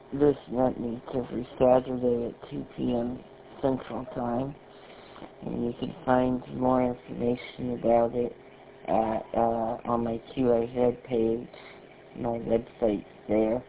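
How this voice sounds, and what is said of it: Strained, fading voice. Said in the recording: “I'm about to lose my voice”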